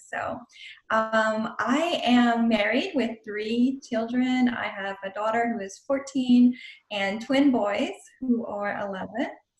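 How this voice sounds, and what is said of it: South Louisiana Cajun accent. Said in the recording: “I grew up and currently live in South Louisiana. Cajun country is how we call it. So if you hear an accent, I have to apologize. ... it just came back full force.”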